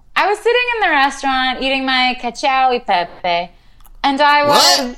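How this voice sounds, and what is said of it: Put-on Italian accent on a word. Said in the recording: “You said it like delicious. It was a South American delicacy. ... That's my Italian accent.”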